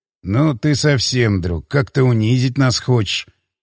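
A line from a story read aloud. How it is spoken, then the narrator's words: Sighing. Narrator (Russian): вздохнул тот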